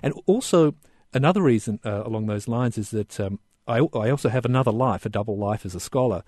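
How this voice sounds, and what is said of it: Australian accent. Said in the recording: “my accent, I'm an Australian”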